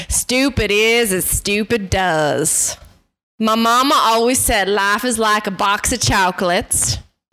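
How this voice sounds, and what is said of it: Impression of Forrest Gump. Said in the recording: “do an impersonation of someone ... That's Forrest Gump.”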